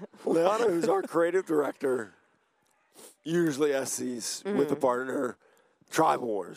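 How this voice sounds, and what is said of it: Hoarse, nearly lost voice. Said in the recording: “I lost my voice. ... I think they know by now. ... I think they can tell.”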